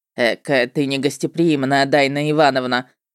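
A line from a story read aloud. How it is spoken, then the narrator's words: Mocking. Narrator (Russian): насмешливо отметил чужак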